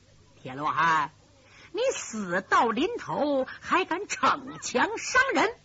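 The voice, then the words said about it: Eerie, sinister character voice. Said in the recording (Chinese): “突然一阵阴森森的声音说”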